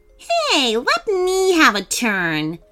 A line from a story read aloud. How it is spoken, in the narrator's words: Alicia snapped